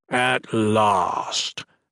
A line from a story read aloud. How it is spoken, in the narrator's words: growled